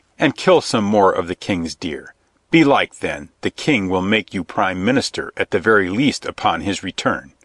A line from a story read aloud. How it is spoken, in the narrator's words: said coldly